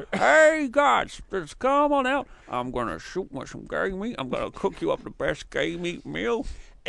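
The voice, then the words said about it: Imitates another person's voice. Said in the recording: “Your Sarah Logan impression”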